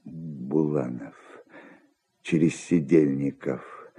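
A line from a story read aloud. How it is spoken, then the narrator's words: Mutter. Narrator (Russian): бормотал он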